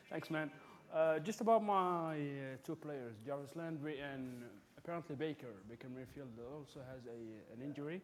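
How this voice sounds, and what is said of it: Middle Eastern accent. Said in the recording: “I'm from the Middle East, so ... I have an accent, basically.”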